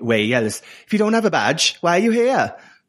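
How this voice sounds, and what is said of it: Imitates another person's accent. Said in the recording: “Can you do that in Tace's accent for us, please? ... That was very good.”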